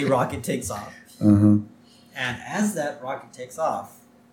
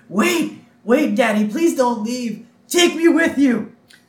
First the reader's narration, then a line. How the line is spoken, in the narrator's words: we hear her start screaming